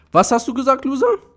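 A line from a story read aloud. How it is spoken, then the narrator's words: Calling out. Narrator (German): rief einer von denen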